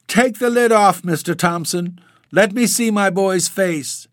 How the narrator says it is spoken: wailed the elder woman between her sobs

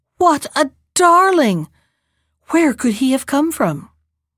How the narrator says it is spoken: she gasped as she looked at the baby

